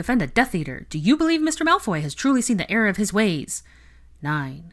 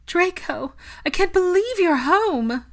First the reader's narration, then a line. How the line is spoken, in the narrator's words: Narcissa cried, shaking harder than she even had been earlier